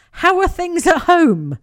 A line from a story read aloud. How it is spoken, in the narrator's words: as if nothing has happened, and then chirps